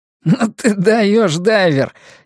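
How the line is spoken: Laughing. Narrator (Russian): засмеялся маньяк

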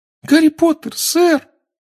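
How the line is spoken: Squeaking, trembling. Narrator (Russian): пропищал эльф, дрожа с головы до пят

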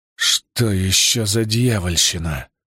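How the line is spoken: Gritted, bewildered. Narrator (Russian): процедил Ясурут, явно сбитый с толку

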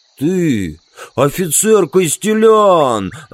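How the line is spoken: Furious growl. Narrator (Russian): зарычал он яростно

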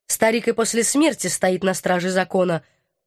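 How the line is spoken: Respectful grunt. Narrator (Russian): уважительно хмыкнул военный

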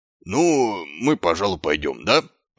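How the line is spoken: Mumbled. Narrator (Russian): промямлил он

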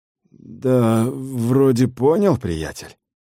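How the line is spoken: Uncertain reply. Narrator (Russian): неуверенно ответил Дакота

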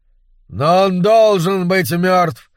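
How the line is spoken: Shout. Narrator (Russian): закричал Серпентрион

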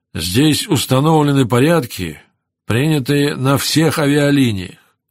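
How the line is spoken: Calm remark. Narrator (Russian): спокойно заметил Сакович

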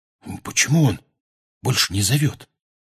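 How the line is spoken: Whisper. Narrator (Russian): прошептал

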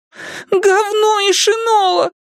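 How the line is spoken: Shouting again. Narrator (Russian): вновь выкрикнул он

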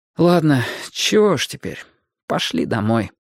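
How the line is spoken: Mumbled. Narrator (Russian): пробормотал Ки

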